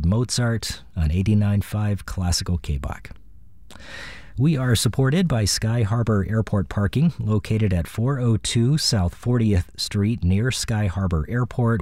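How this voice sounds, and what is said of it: Raspy voice. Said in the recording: “this raspy voice ... I don't sound like this”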